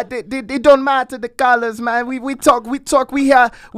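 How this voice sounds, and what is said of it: Put-on Jamaican accent. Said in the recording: “I like this accent of yours ... I'm not Jamaican”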